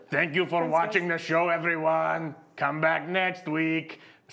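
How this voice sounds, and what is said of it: Made-up put-on accent. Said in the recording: “this random accent I made up”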